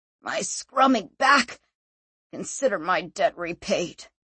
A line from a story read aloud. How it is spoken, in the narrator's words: he snarled